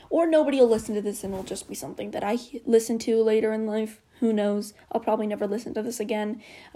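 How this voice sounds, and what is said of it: Talking very fast. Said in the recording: “I'm talking really fast.”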